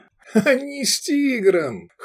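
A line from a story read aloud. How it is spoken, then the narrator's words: Short laugh. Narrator (Russian): хохотнул Атиан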